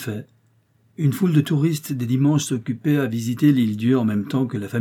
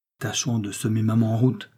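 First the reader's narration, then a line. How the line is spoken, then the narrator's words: Whispered. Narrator (French): souffla Laurence à son flirt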